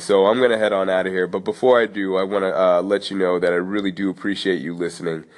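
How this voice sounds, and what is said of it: Congested, froggy, stuffy-nosed voice. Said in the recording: “I'm a little bit congested. ... My voice is froggy. My nose is stuffy.”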